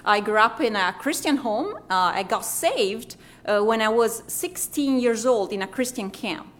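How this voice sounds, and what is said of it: Italian accent. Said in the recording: “As you can hear from my accent, I am Italian, a real Italian”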